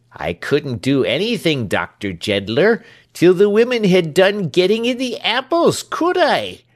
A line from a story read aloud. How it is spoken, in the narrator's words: said Britain, his voice rising with his reasoning, so that it was very loud at last